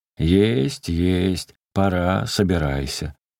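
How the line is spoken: Loud, hasty, almost rude. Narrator (Russian): священник ответил ему громко и поспешно, почти грубо

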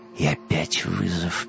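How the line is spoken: Mutter. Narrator (Russian): пробормотал Вим

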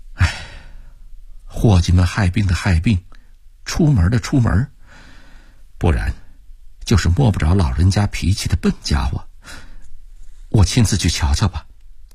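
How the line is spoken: Serious murmur. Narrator (Chinese): 李慧芳…收敛了笑容，喃喃地说道

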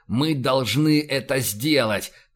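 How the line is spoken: Growling. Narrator (Russian): прорычал он

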